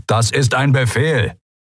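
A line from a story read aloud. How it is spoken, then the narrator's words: Thundered. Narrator (German): donnerte der Admiral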